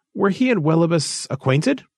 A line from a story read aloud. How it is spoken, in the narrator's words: Rolver laughed shortly